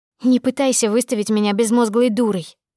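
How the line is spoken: Angry. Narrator (Russian): ответила зло

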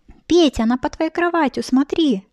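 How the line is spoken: Girls shouting. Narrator (Russian): закричали Петя девочки

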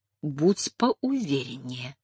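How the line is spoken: Whispered to herself. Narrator (Russian): шепнула сама себе

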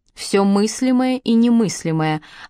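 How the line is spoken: Hushed, gentle, solemn. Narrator (Russian): ответил Пол тихим, мягким голосом, каким разговаривают, когда смерть стоит у порога

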